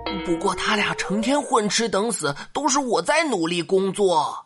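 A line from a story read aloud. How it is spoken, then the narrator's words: Quiet aside. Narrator (Chinese): 小声补充了一句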